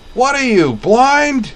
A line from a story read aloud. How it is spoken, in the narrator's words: Roy Chernov bellowed